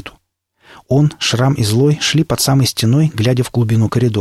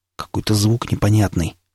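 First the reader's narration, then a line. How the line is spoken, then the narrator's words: Quiet. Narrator (Russian): тихо сказал напарник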